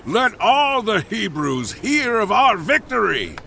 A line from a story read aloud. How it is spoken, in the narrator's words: With a booming laugh, he shouted